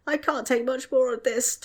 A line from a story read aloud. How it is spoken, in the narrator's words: Tom whined